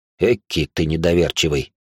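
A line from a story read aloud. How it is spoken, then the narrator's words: Surprised snort. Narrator (Russian): удивленно хмыкнул он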